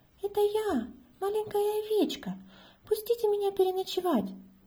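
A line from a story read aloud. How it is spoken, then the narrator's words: Thin high voice. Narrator (Russian): проговорил тонким голосом волк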